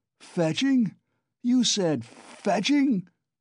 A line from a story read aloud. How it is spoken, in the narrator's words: roared Razumihin